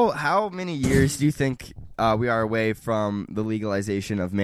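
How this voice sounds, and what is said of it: Usual voice. Nothing is said of it.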